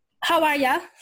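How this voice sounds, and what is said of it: Attempted Australian accent. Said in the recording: “my wannabe Australian accent”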